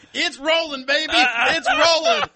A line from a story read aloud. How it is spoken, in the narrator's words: And he was yelling